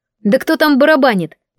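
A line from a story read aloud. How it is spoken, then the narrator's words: Impatient snap. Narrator (Russian): Не выдержав, рявкнула я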